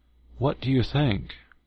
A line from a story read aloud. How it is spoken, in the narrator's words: There were those who anxiously asked